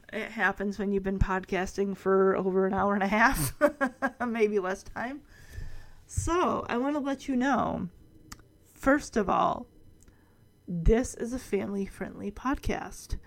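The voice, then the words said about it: Raspy, tired voice. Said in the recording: “podcast voice now. My voice is getting really raspy.”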